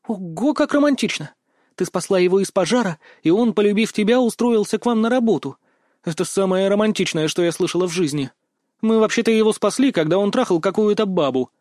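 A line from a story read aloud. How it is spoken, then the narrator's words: Sharp angry outburst. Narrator (Russian): резко вспылила она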